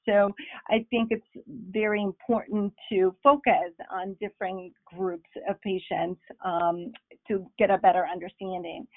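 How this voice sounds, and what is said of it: Bolivian Spanish accent in English. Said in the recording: “I'm originally from Bolivia, so perhaps you heard some of my accent along the way. ... I'm Spanish speaking,”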